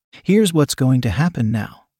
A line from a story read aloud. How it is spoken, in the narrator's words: he said coldly